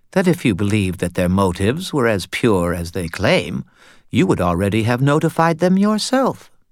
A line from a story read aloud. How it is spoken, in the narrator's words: Kumori answered smoothly